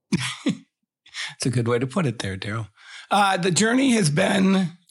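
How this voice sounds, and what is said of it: Deep husky radio voice. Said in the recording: “Take a drink of water ... It's my sexy radio voice.”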